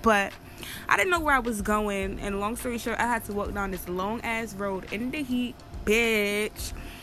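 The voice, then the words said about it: Jamaican accent. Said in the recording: “I'm Jamaican, so y'all probably hear my accent come out a little pin in”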